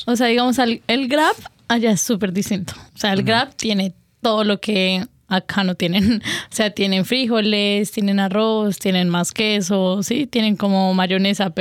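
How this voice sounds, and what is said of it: Colombian Spanish accent. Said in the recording (Spanish): “reconozco ese acento que tienes ... De Colombia”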